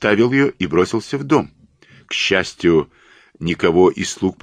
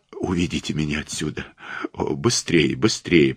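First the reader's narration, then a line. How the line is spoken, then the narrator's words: Trembling moan. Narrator (Russian): простонала она, дрожа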